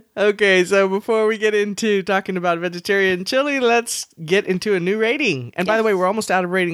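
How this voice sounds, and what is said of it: Usual voice. Nothing is said of it.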